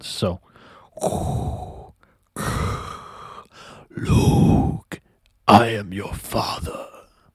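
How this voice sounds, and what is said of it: Darth Vader voice impression. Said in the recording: “the Darth Vader mask ... I'm gonna try to do that voice. I'm actually pretty good at voice imitations ... That's pretty good. That's about as good as I'm going to get on the fly”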